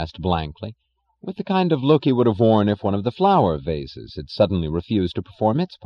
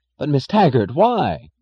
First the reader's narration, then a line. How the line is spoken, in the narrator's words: cried Chick Morrison